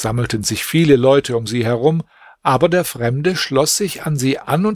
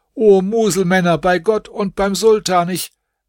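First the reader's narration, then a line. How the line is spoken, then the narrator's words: Confused shouting crowd. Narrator (German): während sie so durcheinander schrien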